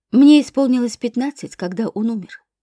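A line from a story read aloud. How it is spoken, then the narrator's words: Dry reply. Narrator (Russian): сухо ответила я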